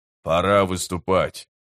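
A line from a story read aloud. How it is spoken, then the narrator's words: Grumbled. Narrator (Russian): пробурчал Гесслер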